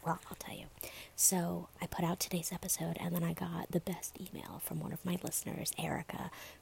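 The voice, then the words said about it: Whispering. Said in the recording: “you might be wondering why the hell I'm whispering.”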